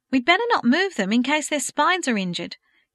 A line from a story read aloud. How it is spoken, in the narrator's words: Kate exclaimed